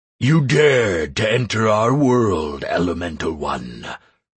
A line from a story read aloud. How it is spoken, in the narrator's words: thundered the darkness, enveloping me in a terrible coldness